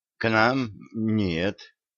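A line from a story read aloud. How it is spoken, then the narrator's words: Unsure young boy. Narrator (Russian): опять неуверенно ответил паренек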